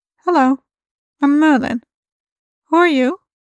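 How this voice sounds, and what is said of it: Character voice, British accent. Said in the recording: “in English with a sort of British accent, and without the uncanny resonance of a Gold or Tok'ra speaking through their host”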